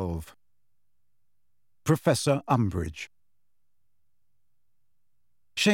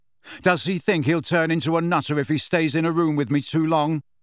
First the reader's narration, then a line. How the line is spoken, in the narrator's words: asked Harry loudly